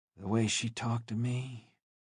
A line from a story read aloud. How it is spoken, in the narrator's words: he said, his voice trailing off